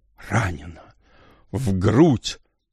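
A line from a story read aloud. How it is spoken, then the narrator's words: Muffled moan, strained speech. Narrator (Russian): Гуля глухо застонала, с трудом выговорила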